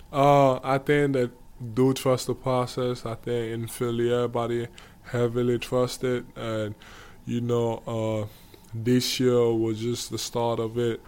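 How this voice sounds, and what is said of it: African-accented English. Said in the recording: “I have an African accent.”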